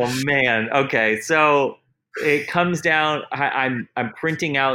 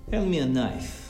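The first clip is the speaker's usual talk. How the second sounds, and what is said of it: Put-on Russian accent. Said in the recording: “my excellent Russian accent”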